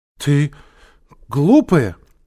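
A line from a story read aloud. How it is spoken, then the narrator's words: Frightened shout. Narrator (Russian): испуганно закричала Женя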